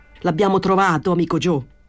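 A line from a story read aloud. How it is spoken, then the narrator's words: Shout. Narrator (Italian): gridò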